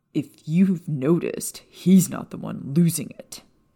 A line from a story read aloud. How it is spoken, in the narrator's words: Sirius snapped